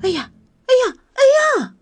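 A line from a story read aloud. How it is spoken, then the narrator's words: Silent inner shout. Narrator (Chinese): 克洛蒂在心里喊道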